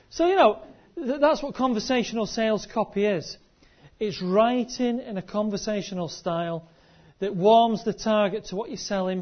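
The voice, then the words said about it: Mixed Scottish and northern English accent. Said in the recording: “I'm talking in an accent ... I came from Scotland and I live near Manchester, and I've worked in Lancashire, so there's a bit of a mishmash there”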